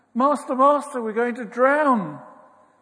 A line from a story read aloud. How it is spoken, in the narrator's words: shout